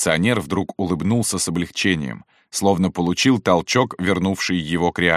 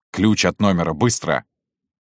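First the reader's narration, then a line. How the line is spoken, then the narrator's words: Plain. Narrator (Russian): сказал Шубин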